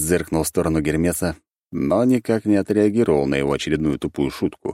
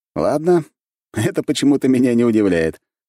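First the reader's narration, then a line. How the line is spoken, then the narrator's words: Wry snort. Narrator (Russian): хмыкнул Александр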